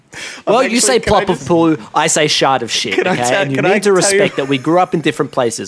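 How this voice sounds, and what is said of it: Put-on heavy American accent. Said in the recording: “I grew up in Alabama, I am American, hence the heavy accent.”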